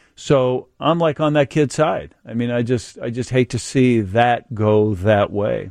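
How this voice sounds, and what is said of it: Usual voice. Nothing is said of it.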